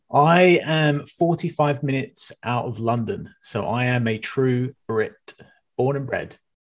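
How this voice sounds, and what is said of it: British accent. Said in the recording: “accent here and I love the accent.”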